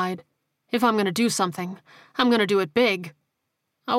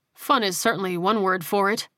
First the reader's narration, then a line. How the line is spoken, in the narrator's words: Mathis replied dryly